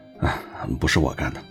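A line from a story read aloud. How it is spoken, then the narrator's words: Sighing. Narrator (Chinese): 罗莎莉恩叹了口气说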